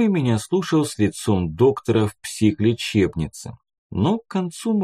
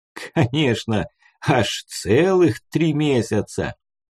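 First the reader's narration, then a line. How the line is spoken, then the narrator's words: Laughing through tears. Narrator (Russian): повторил он сквозь смех и слезы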